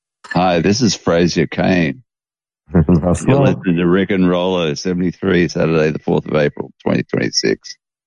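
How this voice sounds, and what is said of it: Sexy imitated voice. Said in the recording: “That was a very sexy voice.”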